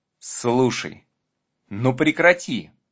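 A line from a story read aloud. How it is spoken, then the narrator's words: Pleading. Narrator (Russian): взмолился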